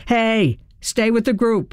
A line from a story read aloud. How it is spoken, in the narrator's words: a cop yelled